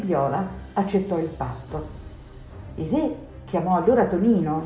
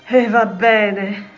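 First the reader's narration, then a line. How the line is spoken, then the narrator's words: King sighing. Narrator (Italian): sospirò il re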